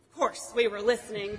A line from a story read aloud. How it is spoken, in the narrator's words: might stammer